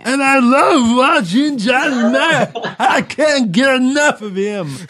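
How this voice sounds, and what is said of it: Imitates another person's voice. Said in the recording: “worst Johnny Mac impression I've ever heard”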